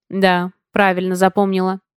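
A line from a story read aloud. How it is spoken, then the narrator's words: Amused grunt. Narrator (Russian): хмыкнул учитель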